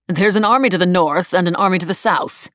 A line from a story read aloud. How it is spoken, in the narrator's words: he snapped